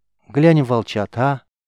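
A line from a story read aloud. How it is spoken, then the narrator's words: Timid, childlike. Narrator (Russian): Робко, словно став вновь 9-летней девочкой, предложила Сафи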